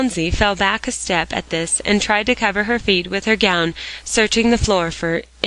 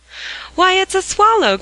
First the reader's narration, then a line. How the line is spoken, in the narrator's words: cried Dick, in the babble that ensued